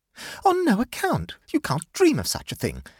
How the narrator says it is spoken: exclaimed Amanda

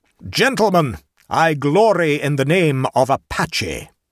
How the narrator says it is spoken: in response to the scandalized shouts of his opponents thundered forth

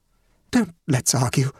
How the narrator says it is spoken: faltered the elder woman

